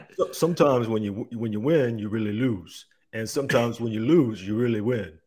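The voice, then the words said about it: Rocky Balboa movie character impression. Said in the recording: “can you give us a little Rocky Balboa? Can you give a little accent going on there? ... It's not bad. ... That's not surprisingly not bad. Okay. Way better than I can do.”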